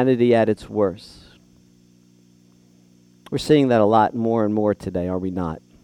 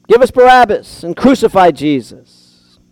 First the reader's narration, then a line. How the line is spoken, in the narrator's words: they yelled